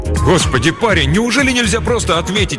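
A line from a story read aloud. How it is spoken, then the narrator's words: Exclamation. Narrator (Russian): воскликнул коп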